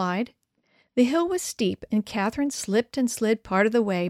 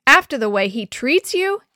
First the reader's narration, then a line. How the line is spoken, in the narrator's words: Emily yelled